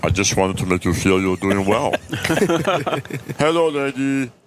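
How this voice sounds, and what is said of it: Imitates another person's voice. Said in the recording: “Andre the Giant ... You just wanted to do that voice.”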